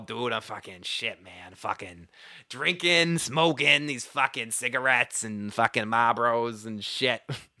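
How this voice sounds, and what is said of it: Strong Boston accent, sniffly voice. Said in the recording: “Especially now I'm sick too. The more sick or drunk I am, the more my Boston accent comes out ... I like got the sniffles ... I'm not even trying to hold back”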